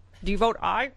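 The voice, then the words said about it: Imitates another person's voice. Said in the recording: “my Mitch McConnell impression”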